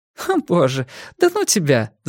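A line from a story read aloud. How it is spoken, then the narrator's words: Laughing. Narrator (Russian): засмеялась Силья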